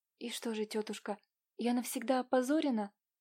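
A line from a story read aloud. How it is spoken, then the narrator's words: Quiet question. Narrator (Russian): спросила тихо Катя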